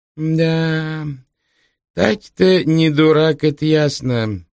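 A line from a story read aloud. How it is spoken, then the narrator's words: Drawling. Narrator (Russian): протянул Проестев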